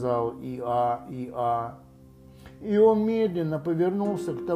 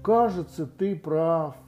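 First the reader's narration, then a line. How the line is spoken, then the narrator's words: Sad, deeply sighing. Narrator (Russian): сказал, глубоко и печально вздыхая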